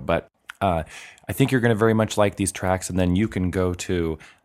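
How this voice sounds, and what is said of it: Voice sounds slightly worn, different. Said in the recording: “my voice has had a little bit from the partying this weekend? I sound a little bit different”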